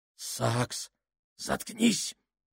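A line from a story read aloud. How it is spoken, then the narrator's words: Strained harsh whisper. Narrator (Russian): оборвал его Сакс надсадным шепотом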